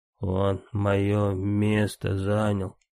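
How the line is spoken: Halting wheeze, nobleman. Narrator (Russian): просипел с перерывами боярин

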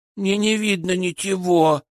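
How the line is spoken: Child whimpering. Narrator (Russian): захныкал ребенок

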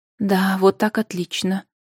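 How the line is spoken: Whisper. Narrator (Russian): шепотом проговорила ведьма

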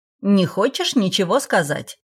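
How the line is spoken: Irritated, from behind. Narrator (Russian): Раздраженно послышалось из-за спины

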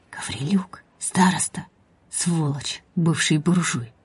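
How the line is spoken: Whisper. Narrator (Russian): Услышала Сашка шепот Бориса

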